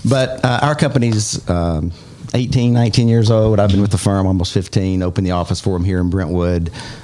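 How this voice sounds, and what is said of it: Southern Alabama accent. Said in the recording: “I heard some Alabama accent in there, didn't I? ... I cannot turn it off.”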